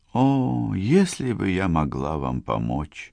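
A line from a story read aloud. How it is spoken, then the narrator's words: Whisper. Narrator (Russian): прошептала она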